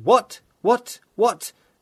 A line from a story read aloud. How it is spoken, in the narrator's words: Mallowell shouted